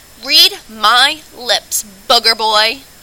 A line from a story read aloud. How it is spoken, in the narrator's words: bellowed